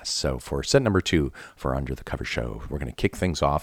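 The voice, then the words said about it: Strained voice from a cold. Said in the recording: “as you can hear, I got a cold ... my voice is a little strained”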